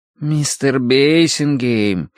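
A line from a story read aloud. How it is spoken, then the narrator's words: Drawling. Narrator (Russian): протянул сторож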